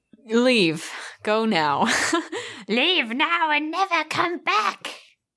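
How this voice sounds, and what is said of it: Gollum character voice impression. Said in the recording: “That was my Gollum impression.”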